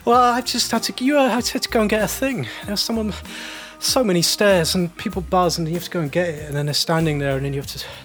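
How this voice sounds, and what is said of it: Out of breath, breathless speech. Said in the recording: “I'm really out of breath.”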